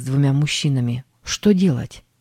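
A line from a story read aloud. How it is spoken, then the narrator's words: Plain. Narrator (Russian): спросил он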